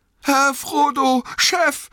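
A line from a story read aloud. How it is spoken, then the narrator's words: Trembling call. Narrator (German): rief Sam bebend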